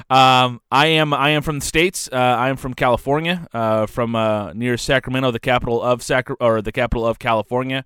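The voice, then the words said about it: American accent. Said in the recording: “my wonderful American accent”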